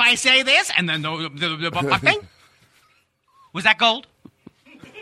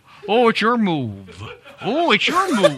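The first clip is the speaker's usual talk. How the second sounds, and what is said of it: Funny voice of weary checkers player. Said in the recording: “I'm doing a funny voice ... my impression of someone playing Chinese checkers for 4 hours in a row”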